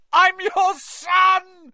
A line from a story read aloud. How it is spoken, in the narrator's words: he screamed up at Crouch